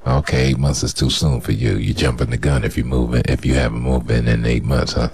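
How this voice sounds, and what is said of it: Sexy voice. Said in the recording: “That's a sexy voice you got”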